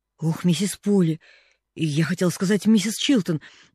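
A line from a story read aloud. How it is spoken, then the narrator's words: Stammering. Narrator (Russian): заикаясь, начала она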